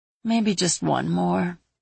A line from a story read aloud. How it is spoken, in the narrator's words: she mumbled